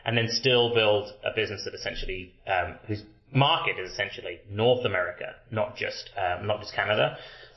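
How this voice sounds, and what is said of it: British accent. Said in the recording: “having a British accent”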